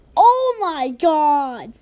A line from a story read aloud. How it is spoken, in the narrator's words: Mom yelled